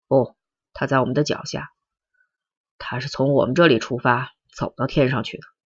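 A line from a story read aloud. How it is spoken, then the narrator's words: Murmuring to himself. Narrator (Chinese): 阮平金喃喃自语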